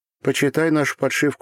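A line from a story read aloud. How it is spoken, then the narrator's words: Plain. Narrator (Russian): сказала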